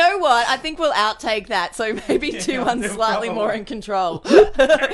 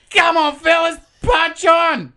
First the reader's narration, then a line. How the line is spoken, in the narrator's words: Rossini probably coked off his tits and juiced up on strawberry milkshakes, yelled to the trio from the car